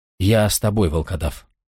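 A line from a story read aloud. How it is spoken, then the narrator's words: Low voice. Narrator (Russian): вполголоса проговорил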